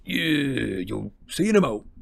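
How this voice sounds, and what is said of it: Hagrid's thick dialect voice. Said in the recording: “a kind of an impenetrable dialect there”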